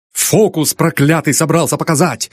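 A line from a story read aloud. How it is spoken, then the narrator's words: Accusatory shout. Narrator (Russian): закричал Нил, словно чиновник полиции был во всем виноват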